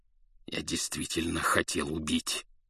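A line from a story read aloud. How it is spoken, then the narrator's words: Growl. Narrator (Russian): зарычал он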